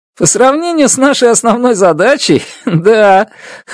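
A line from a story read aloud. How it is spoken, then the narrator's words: Chuckling. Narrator (Russian): хохотнул он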